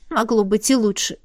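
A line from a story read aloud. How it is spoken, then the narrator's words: Sniffling grumble. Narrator (Russian): Пробурчала я, шмыгая носом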